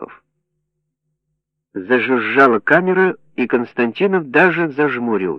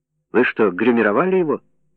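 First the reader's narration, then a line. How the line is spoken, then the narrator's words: Plain. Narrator (Russian): спросил Константинов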